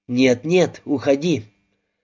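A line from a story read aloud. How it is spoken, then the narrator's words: Very serious tone. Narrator (Russian): Сказано это было очень серьезным тоном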